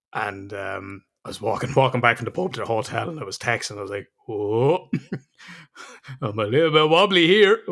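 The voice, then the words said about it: Irish accent. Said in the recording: “they hear the Irish accent.”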